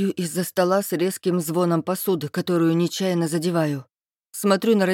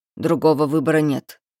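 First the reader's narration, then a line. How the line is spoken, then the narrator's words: Stern. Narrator (Russian): строго говорит отец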